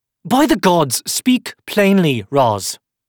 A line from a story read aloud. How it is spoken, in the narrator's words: she snapped in frustration